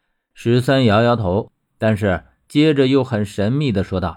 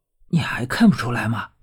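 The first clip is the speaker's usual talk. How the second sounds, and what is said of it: Whispered, hushed voice. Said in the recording (Chinese): “小声和我说”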